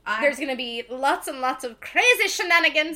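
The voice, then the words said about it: Failed attempt at Irish accent. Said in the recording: “I was trying to do an Irish accent there, it failed.”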